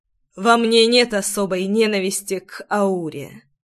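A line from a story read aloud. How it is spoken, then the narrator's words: Serious, muffled voice. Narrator (Russian): вмиг став серьезным, глухо проговорил Ривеналс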